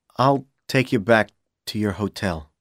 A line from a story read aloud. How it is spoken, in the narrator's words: Powell said quietly